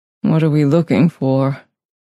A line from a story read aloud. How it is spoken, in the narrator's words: He asked in a weak voice